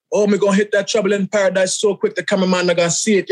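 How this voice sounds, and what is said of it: Put-on Jamaican-style accent, deliberately bad. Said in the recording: “a terrible accent like this ... Jamaican people were mad, boy. African people were mad, boy ... It's my character”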